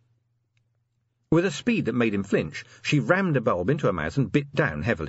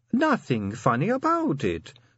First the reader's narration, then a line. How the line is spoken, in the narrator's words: said Sally sweetly